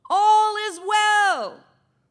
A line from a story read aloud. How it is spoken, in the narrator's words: Ahimaaz cried out to the king